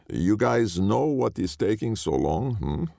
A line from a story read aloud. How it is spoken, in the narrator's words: Jason asked, his voice thick with a Mediterranean accent